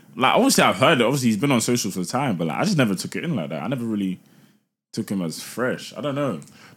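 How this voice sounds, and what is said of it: London urban English accent. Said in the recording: “I have a London accent ... you have an urban accent ... Urban accent, that's what I have”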